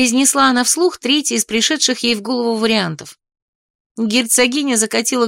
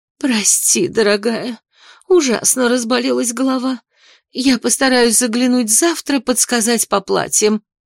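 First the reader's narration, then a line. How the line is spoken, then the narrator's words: Exhausted voice. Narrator (Russian): совсем другим, страшно измученным голосом добавила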